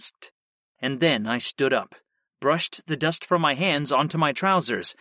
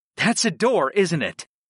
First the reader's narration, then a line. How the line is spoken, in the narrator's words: I asked her excitedly